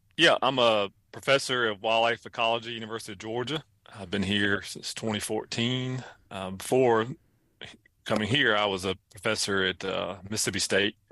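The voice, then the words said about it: Southern US accent, North Carolina. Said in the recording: “originally from North Carolina. So if the accent throws you off, it's because I'm from other parts of the South.”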